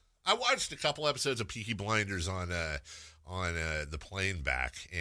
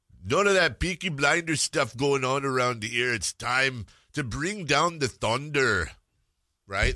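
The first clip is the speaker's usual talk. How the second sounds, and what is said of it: Imitates another person's voice, heavy accent. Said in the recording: “he's got like this heavy accent too ... Why did I turn into Arnold Schwarzenegger now?”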